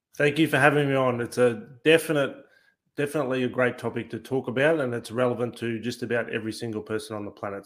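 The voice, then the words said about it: Australian accent. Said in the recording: “people are saying, oh, he's from Australia ... You probably pick it up a little bit from the accent.”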